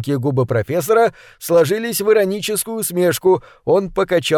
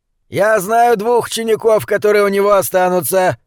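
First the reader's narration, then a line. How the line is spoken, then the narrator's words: Growl. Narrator (Russian): прорычал Шенц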